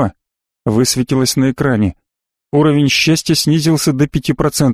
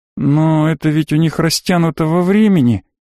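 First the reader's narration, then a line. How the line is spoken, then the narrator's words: Uncertain. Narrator (Russian): неуверенно сказала Марго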